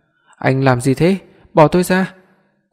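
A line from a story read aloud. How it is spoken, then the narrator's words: Woman shouting loudly. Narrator (Vietnamese): Cô ta hét lớn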